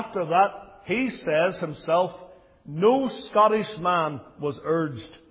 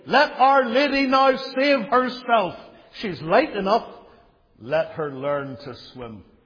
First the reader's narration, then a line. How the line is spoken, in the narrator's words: exclaiming gleefully